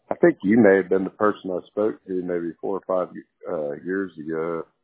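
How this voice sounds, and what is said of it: Texan accent, very deep voice. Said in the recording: “that Texan accent, that very deep voice”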